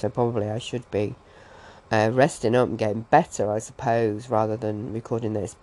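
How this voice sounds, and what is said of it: Sick, weakened voice. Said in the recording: “as you can probably tell from my voice compared to the introduction, I sound a little bit different, and that's because I'm absolutely full of bugs ... I completely lost my voice over the weekend. I only just started to get it back”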